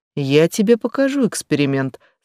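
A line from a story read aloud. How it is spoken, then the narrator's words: Calm. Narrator (Russian): спокойно произнесла Джа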